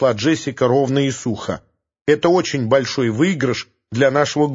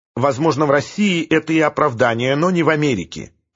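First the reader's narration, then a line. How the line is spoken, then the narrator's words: Icy tone. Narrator (Russian): ледяным тоном сказала Джессика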